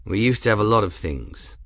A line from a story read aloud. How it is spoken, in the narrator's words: Grim said in a neutral tone